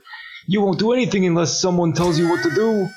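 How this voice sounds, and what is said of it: Clumsy put-on character accent. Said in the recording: “I'm messing up his accent ... started an accent, then been like, man, I'm ruining this, and then doubled down on it”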